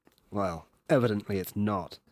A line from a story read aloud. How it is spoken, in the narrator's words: said dryly